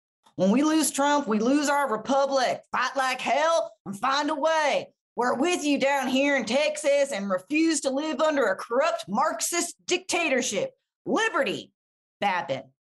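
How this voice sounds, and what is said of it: Put-on Texas accent. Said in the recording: “What's a Texas accent?”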